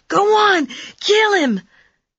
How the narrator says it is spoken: The kid shrieked a long, piercing fire whistle sound

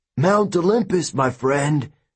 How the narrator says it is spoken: Bellerophon cried with glee

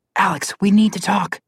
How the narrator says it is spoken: Connor whispered

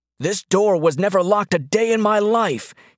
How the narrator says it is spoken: he shouted, the words slurring one into the other over his broken teeth

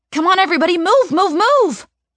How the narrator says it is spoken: I shout

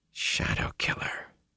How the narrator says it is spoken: Ingtar murmured

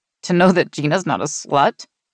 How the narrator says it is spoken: Mary giggled wickedly

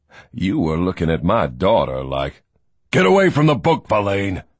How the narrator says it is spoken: Barons growled

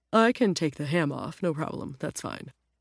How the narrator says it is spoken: the rabbit mumbled

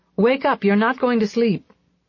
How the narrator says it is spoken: I shouted

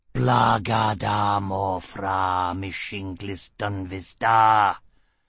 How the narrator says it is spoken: the motion roared

